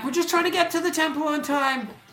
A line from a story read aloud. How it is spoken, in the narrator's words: they yell back